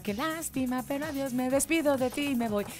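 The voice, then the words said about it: Off-key singing. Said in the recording (Spanish): “Qué desentonada estoy.”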